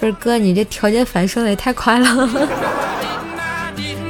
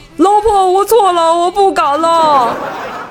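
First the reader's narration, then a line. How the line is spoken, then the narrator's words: Shouting. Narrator (Chinese): 冰棍哥 大喊道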